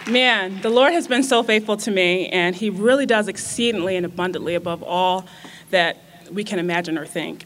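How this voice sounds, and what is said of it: Emotional, close-to-tears voice. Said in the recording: “I'm a little emotional. ... I'm just going to start crying.”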